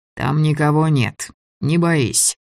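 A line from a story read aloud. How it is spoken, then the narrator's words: Mocking. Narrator (Russian): сказал Гриня насмешливо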